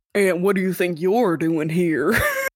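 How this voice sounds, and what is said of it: Southern accent. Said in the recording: “that southern accent came out”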